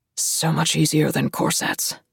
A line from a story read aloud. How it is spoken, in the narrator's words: he murmurs